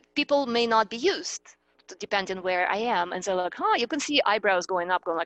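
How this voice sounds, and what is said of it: Eastern European accent, fast speech. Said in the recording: “my accent is Eastern European. I grew up in Russia ... I'm an extremely fast speaker”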